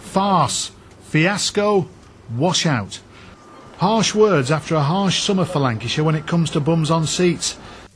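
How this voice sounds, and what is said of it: Northern English accent. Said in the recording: “just a bloke with a northern accent ... a slight sarcastic chapper's air”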